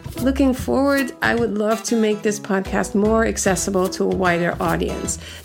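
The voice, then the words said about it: Speaker's own accent. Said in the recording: “Sometimes my accent gets in the way”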